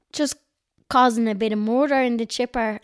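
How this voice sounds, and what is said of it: Very strong North Dublin accent. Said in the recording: “You said that in a very, very strong North Dublin accent.”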